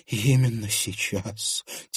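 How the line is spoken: Quiet. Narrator (Russian): тихо произнесла она

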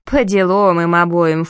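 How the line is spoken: Snorting. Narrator (Russian): фыркнула Мири

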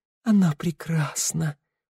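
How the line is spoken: Whisper. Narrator (Russian): прошептал он

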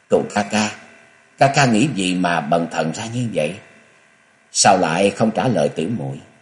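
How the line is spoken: Sad, coaxing voice. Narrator (Vietnamese): Dạng Phụng Chân nói bằng một giọng nửa bi thương lại nửa nũng nịu

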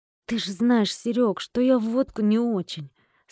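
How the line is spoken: Doubtful, forced out. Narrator (Russian): с сомнением выдавил Димка

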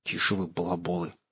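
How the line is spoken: Hissed. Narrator (Russian): зашипела Алиса

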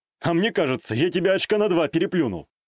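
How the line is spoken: Snorting. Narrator (Russian): хмыкнул я

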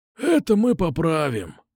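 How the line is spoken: Snort. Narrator (Russian): хмыкнул Кукуша

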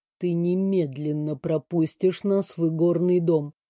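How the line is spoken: Very quiet, weighty command. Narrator (Russian): очень тихо и веско приказал секретарь

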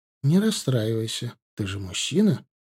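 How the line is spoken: Soothing. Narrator (Russian): начала она успокаивать его

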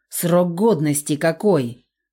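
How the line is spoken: Growled. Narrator (Russian): рыкнул кикимор

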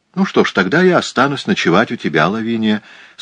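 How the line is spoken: Plain. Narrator (Russian): сказала Франсина

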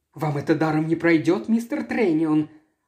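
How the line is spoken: Fast agitated blurting. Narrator (Russian): Она выпалила это быстро, взволнованно

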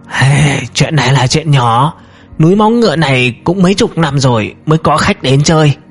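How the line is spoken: Hoarse reply. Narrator (Vietnamese): Từ Lão Hán khoát tay, khàn khàn trả lời

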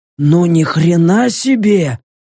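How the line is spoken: Strained, forced out. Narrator (Russian): выдавил Баск

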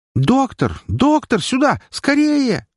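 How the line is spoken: Nurse's deafening shout. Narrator (Russian): закричала медсестра, чуть не оглушив меня

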